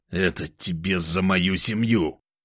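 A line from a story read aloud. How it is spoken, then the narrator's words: Angry, through gritted teeth. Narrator (Russian): Зло процедил я сквозь зубы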